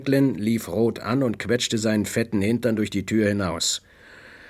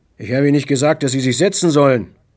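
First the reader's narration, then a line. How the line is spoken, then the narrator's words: Barked. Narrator (German): bellte Grants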